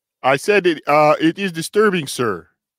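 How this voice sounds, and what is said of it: Put-on Russian accent. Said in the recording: “Maybe it was my Russian accent slipping in a little bit.”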